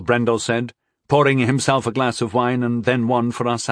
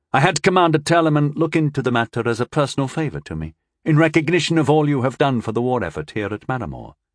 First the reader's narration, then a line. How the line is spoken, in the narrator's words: he said smoothly